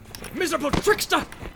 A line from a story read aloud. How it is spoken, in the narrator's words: He shouted